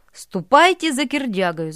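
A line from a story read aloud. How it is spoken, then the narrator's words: Shouted. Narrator (Russian): закричали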